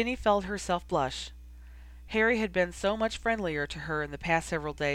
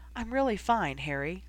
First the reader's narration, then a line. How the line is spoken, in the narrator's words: she assured him quietly